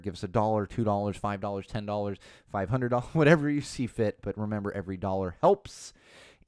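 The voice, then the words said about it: Strained, failing hoarse voice. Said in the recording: “my voice just going. It's hurting right now ... bearing with me on my voice”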